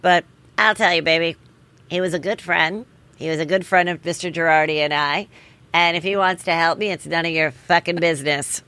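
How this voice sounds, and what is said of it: Imitates another person's voice. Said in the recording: “That was a good impression.”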